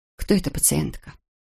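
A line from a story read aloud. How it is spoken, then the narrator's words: Plain. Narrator (Russian): спросила Эбби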